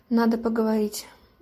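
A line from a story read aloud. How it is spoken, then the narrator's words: Gruff mutter. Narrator (Russian): буркнул капитан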